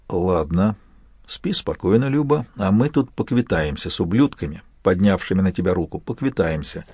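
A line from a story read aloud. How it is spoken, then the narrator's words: Whisper. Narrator (Russian): Прошептал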